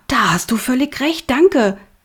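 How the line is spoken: Calling out. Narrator (German): rief er

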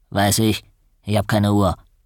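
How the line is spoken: Grunting. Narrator (German): Er grunzte

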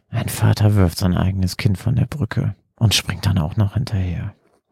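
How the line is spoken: Murmured, head shaking. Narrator (German): murmelte dann kopfschüttelnd

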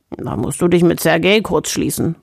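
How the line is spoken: Grumbled. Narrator (German): brummte Nikolai

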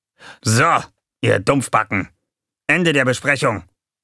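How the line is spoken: Sudden barking shout. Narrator (German): bellte Gonko plötzlich los

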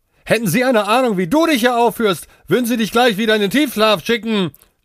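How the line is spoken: Shouted after someone. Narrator (German): schrie Priyanka hinter ihm her

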